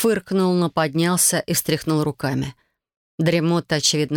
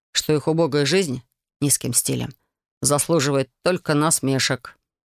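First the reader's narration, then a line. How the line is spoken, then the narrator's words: Gloomy. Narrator (Russian): мрачно произнес художник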